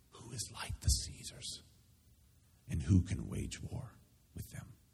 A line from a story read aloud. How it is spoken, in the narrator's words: The shell-shocked crowd, awed into submission, stands and whispers